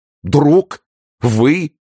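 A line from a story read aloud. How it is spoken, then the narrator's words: Through loudly grinding teeth. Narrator (Russian): повторил Людовик, громко скрежеща зубами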